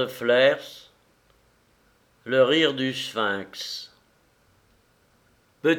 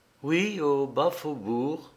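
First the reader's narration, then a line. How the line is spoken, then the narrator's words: Calm, nearly solemn voice. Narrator (French): répondit Hildée d'une voix calme, presque grave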